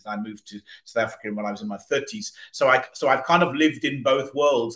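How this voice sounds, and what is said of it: British accent. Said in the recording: “I'm originally British by birth. You may pick up the accent.”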